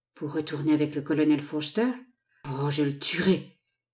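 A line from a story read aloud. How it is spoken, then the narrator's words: Murmur. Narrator (French): murmura le négociant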